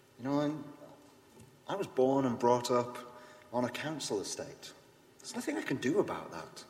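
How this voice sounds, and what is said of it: Yorkshire accent. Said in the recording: “I'm from Yorkshire. I have an accent.”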